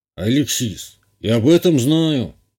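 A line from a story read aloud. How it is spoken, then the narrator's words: Sighing. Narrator (Russian): вздохнул капитан гарнизона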